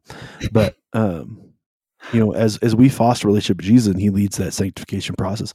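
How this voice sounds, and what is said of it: Hoarse, worn voice. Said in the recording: “I'm still getting over being sick, so my voice is a little shot.”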